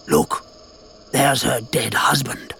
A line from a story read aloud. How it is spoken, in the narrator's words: Sir Francis whispered